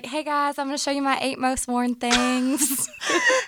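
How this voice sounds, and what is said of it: Subtle Southern twang. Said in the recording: “you can hear a Southern accent in my voice ... It was not that bold ... A subtle twang”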